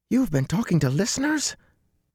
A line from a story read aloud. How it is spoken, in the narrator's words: Matt's voice squeaked like a rusty hinge